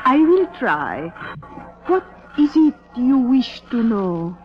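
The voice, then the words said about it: Phony fortune-teller accent. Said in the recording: “Cut the phony accent”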